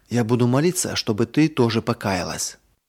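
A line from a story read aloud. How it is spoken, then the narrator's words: Whispered in ear. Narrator (Russian): Марина прошептала сестренке на ухо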